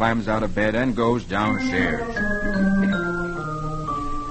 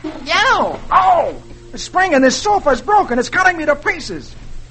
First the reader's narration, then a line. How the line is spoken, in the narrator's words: he yells